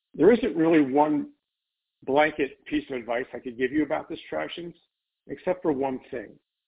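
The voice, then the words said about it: Hoarse voice. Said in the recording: “sorry about my voice today, I'm a little bit hoarse,”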